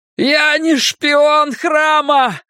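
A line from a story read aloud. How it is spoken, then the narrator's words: Full-throated yell. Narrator (Russian): заорал я во все горло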